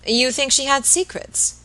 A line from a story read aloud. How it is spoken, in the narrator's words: Robert asked rather eagerly